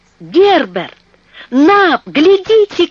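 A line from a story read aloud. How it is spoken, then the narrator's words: Shout. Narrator (Russian): крикнул он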